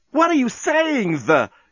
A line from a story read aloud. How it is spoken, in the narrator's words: cried Lucy